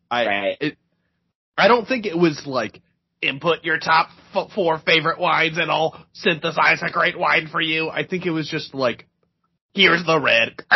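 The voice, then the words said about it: Dalek-like robotic voice. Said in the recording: “That's a great Dalek impression, ... It really is, honestly. ... you're doing a good job.”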